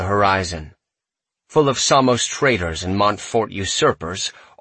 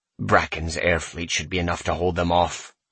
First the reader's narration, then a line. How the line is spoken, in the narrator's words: I mutter